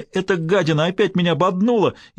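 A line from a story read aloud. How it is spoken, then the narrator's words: Sobbing. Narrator (Russian): И ну рыдать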